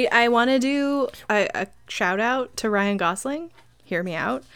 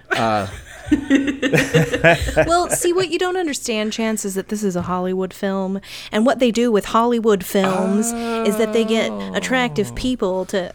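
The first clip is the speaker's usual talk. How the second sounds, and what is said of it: Imitates another person's voice, lecturing. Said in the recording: “I'm doing my Chance impression about lecturing me about Hollywood films.”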